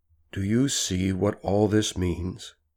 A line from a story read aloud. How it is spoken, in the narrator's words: he says softly